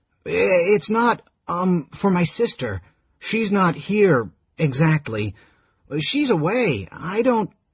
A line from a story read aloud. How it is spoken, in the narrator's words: Realizing suddenly what she'd said, he stammered